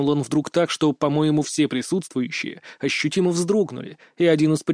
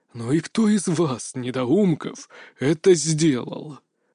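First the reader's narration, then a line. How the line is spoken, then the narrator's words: Menacing hiss through teeth. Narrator (Russian): Грозно прошипел он сквозь зубы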